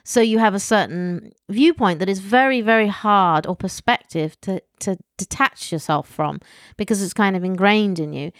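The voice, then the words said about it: Posh British accent. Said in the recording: “I'm British and I have my silly posh accent.”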